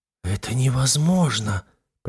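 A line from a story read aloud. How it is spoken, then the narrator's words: Shocked whisper. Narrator (Russian): прошептала потрясенная Ксения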